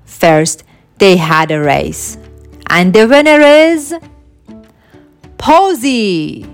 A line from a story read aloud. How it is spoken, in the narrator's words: shouted Esme